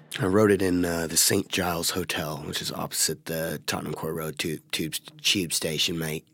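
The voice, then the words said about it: Put-on English accent. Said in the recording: “you've been working on that English accent.”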